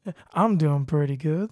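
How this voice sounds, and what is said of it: Southern drawl. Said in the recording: “your southern drawl came out there”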